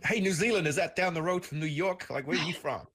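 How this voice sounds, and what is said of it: Terrible put-on New York accent. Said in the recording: “Terrible New York accent.”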